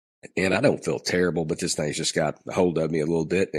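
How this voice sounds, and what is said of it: Stuffy, congested voice. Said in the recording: “You can probably tell that I have a cold. ... it kind of affects the way that I speak a little bit”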